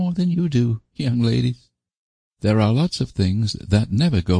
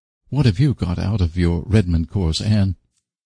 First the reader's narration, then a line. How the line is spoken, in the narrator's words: murmured Priscilla, aside